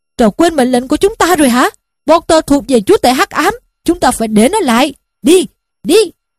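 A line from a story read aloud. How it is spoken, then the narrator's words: Shouting from above. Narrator (Vietnamese): phía trên đầu nó, Snape đang quát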